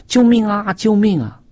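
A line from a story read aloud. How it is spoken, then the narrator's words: Screaming. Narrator (Chinese): 有人在尖叫，说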